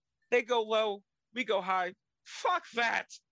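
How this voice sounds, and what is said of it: Imitates another person's voice, weary cadence. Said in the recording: “her cadence and the emphasis that she puts on certain words, and it like completely changes the way she pronounces words ... It's like it's sad. I'm tired of everything. And like just that crag”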